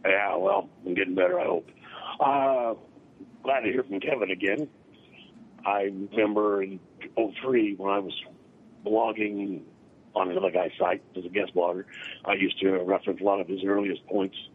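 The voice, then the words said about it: Sick, congested voice. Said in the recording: “I'm off work with sinusitis, so sorry about the voice.”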